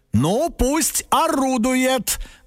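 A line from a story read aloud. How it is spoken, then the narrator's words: Loud father, as if to himself. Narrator (Russian): громко сказал папа, как будто бы сам себе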